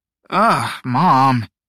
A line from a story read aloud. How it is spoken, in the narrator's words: Teo groaned